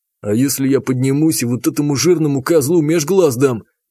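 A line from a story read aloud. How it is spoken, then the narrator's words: Growling. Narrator (Russian): прорычал танк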